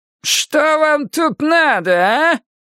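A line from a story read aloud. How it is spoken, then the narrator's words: Strained, piercing voice. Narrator (Russian): надсадным и пронзительным голосом повторил он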